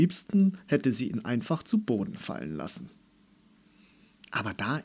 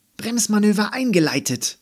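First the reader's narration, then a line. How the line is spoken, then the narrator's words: Shouted. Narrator (German): rief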